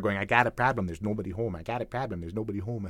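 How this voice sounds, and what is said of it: Fargo accent, flat and round O's. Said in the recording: “the O sounds are so different in got and prob and nobody home ... big round O's in the second words and those really flat O's in the first ones ... audition for Fargo ... I'd sort of hit the accent”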